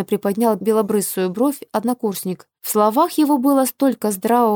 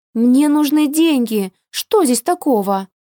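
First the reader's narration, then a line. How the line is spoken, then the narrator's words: Sincere exclamation. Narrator (Russian): воскликнула совершенно искренне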